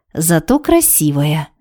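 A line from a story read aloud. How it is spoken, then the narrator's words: Sigh. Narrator (Russian): вздохнула Барби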